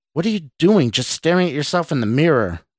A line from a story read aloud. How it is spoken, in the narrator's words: Mark asked angrily